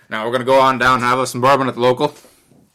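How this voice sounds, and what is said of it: Poor put-on Appalachian accent. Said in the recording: “And that was a shit accent. ... This is Appalachia.”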